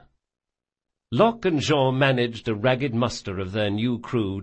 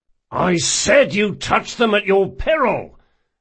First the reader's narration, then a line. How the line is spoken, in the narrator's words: Locke snarled for the third time